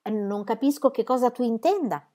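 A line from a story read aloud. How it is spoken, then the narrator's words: Plain. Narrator (Italian): disse la signora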